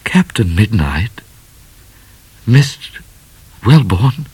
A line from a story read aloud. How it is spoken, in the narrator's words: said Midnight in a rather shaky voice because he was more in love than ever